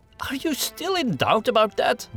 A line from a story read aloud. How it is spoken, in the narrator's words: Gustav exclaimed in exasperation